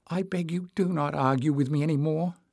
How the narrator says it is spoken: he mumbled

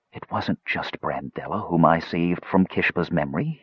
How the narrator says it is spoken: whispered

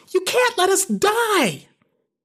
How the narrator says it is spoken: Stacy screams

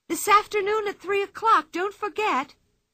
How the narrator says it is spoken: cried Anika

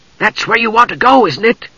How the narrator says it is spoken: He asked in a loud whisper

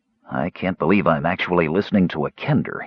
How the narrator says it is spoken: muttered

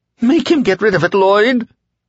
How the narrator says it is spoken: the dark man, who was now the pale man, whined

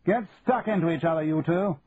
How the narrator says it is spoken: shouted Trenton

